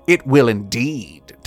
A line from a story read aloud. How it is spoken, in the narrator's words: Tobias sneered